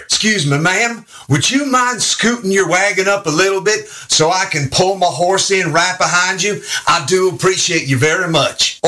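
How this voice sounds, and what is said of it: Texas accent. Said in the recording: “the f***ing Texas accent was ranked sexiest in America”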